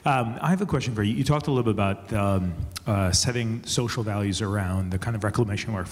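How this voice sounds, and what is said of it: Unusually quiet voice. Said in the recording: “Normally my voice is loud enough, but it's a little bit quiet today.”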